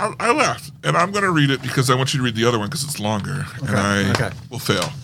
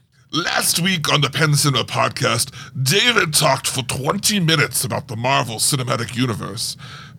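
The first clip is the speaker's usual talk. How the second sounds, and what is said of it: Imitates another person's accent. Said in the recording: “Let me see if I get his accent right.”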